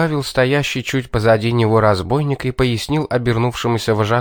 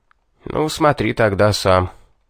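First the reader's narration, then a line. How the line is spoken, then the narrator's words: Indifferent tone. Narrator (Russian): безразличным тоном проговорил Гальба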